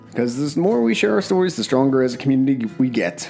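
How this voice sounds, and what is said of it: Breathless, rushed speech. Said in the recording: “I'm out of breath. I did that all in one breath.”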